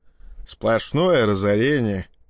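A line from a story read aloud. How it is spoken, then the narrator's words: Grumbling. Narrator (Russian): проворчал он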